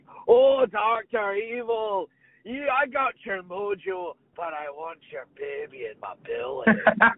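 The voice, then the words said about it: Imitates Fat Bastard character voice. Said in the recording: “Fat Bastard is basically like ... That's pretty spot on.”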